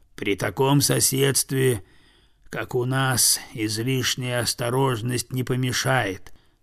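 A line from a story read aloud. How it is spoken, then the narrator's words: Very quiet objection, bear. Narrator (Russian): совсем тихо возразил медведь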